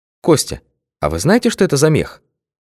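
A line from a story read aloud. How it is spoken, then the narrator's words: Quiet question. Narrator (Russian): тихо спросила Алла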